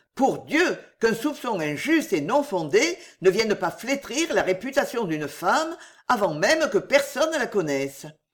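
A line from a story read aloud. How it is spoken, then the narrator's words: Quick, lively. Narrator (French): répondit le duc vivement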